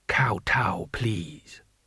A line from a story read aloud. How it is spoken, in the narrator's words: whispered a voice by his ear